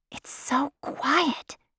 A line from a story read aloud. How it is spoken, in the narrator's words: she whispered to Ka